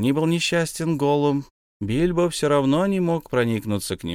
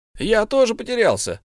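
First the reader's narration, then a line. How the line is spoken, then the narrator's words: Impatient shout. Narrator (Russian): закричал в нетерпении Бильбо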